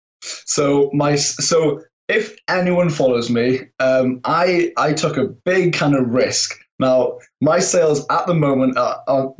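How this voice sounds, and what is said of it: Welsh accent. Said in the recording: “I detect an accent ... I am from Pembrokeshire, Wales, inside the UK.”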